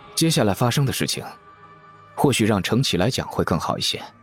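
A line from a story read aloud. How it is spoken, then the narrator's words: Calm, faint smile. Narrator (Chinese): 展昭不慌不忙，淡淡一笑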